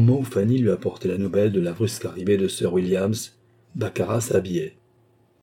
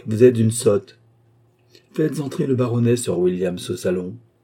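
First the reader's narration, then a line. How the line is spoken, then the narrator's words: Curt, dry reply. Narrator (French): répondit Baccarat d'un ton sec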